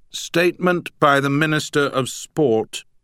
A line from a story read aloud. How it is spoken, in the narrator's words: bellowed